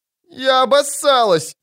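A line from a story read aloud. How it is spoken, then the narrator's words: Moaning. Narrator (Russian): застонала Ангулема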